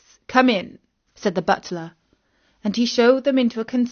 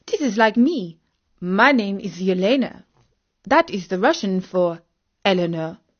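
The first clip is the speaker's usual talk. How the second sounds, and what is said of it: Put-on Russian accent. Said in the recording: “not forgetting her Russian accent”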